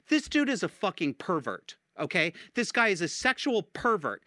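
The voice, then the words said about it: Yelling. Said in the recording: “I'm yelling into the microphone”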